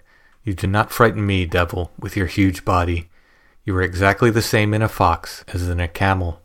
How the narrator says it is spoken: calmly said

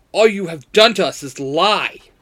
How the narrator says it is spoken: Jason barks

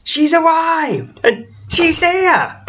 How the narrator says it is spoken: a group of no less than 7 children rush ahead, repeatedly shouting

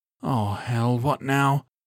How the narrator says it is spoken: Calvin groaned

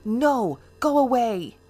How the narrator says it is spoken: I screamed at the top of my lungs

